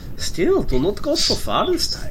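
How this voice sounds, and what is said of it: Deliberately bad put-on German accent. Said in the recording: “I keep losing the like German accent I'm trying to fuck up on purpose ... I have to replace the W's with the V's for this person”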